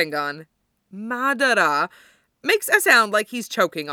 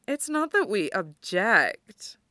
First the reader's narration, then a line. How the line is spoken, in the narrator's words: she purrs, with a coy smile